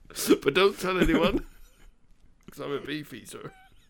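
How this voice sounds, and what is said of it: Put-on West Country accent. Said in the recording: “in a West Country accent ... Why was it in a Somerset accent?”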